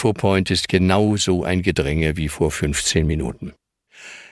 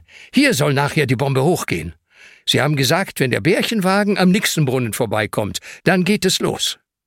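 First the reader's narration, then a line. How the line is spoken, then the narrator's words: Calls out. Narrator (German): ruft Ben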